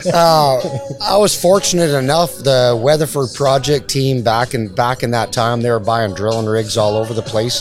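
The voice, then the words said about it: Canadian accent. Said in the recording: “I'm from Canada. ... I keep getting busted on my accent all the time now.”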